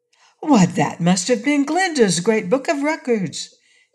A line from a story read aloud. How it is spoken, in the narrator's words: exclaimed Dorothy